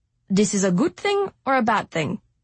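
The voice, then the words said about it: Slight German accent. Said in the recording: “with a slight German accent”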